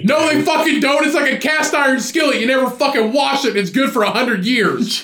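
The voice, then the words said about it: Yelling angrily. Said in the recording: “Calm down. Quit yelling.”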